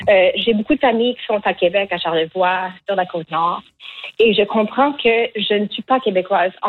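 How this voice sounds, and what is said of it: Acadian French accent. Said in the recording (French): “en tant que personne qui était née en Acadie, moi, je ne trouve pas que mon accent est laid”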